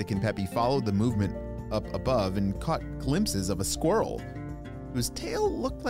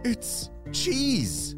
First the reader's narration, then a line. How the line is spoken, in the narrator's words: he cried